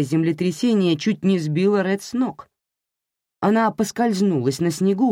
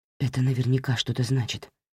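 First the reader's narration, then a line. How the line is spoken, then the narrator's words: Whispered. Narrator (Russian): прошептал Рафи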